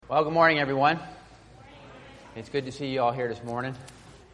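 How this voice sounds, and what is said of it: Slightly hoarse voice. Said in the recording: “I think my voice is getting a little hoarse.”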